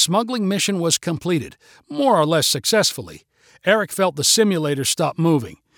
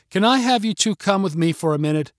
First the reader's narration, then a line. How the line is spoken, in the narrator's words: she asked